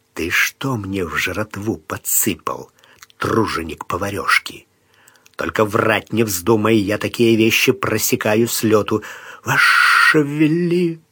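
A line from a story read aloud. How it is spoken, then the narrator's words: Squeak. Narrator (Russian): пискнул кухарь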